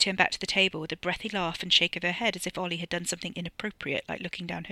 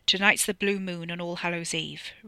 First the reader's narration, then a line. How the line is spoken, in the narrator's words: Ricky growled, low and serious